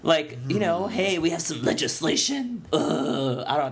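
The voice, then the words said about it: Imitates another person's voice. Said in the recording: “That's my Leonardo DiCaprio impression.”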